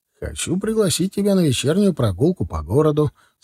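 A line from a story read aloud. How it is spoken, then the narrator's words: Calm casual tone, phone. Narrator (Russian): спокойным будничным тоном сообщил жене, когда позвонил ей из автомата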